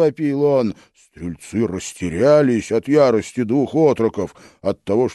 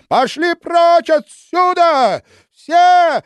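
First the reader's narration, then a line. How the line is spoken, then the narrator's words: Shrieking. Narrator (Russian): визжал Ваня стрельцам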